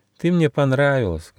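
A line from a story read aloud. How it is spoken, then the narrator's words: Sad. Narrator (Russian): грустно сказал Гоша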